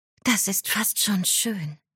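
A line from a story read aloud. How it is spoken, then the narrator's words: Quiet. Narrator (German): sagte Berenice leise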